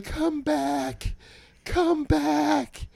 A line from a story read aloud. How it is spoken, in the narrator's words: she's screaming like